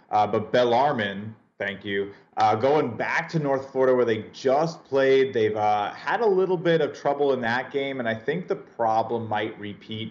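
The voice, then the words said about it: Tennessee accent. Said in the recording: “my real Tennessee accent”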